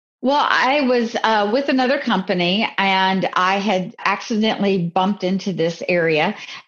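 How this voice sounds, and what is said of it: Tennessee accent. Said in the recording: “that Tennessee accent that we can hear in you”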